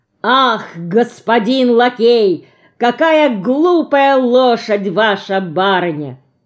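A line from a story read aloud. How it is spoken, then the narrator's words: Very loud declaiming. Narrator (Russian): декламирует Леня так громко, что на нас оглядываются прохожие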